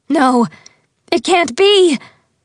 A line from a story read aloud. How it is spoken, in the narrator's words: cried